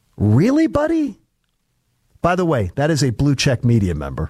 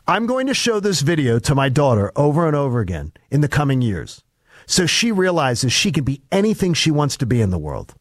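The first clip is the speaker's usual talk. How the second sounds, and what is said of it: Mocking sarcastic voice. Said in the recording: “do the mocking voice.”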